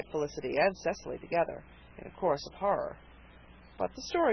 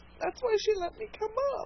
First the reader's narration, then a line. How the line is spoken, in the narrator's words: she sobbed